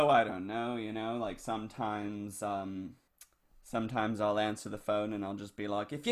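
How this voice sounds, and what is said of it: Usual voice. Nothing is said of it.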